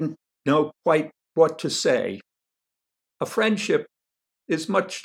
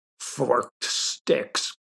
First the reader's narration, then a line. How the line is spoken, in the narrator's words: grumbled Rascal, and from the way he said it, I could tell that he didn't think much of the idea